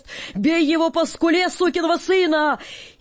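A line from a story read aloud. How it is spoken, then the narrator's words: Crowd shouting. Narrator (Russian): полотеры кричали с стоячих мест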